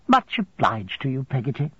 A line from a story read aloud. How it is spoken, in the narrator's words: returned in a cheerful voice